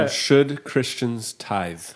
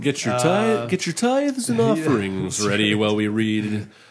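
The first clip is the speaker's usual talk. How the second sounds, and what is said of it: Mock church pastor announcement voice. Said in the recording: “pretty good impression of us”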